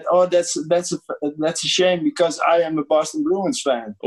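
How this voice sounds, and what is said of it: Put-on German accent in English. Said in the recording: “he had a funny accent ... in German English, with this German tone of voice”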